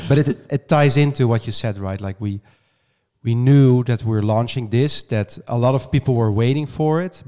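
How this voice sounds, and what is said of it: Voice sounds changed, strained. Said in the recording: “excuse my voice a little bit today. Hopefully next week my voice is better ... It sounds different ... I was screaming so loud that my voice has changed”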